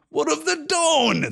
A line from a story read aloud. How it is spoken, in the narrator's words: they jeered